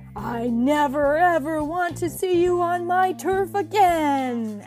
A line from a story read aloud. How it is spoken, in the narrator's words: Alex roared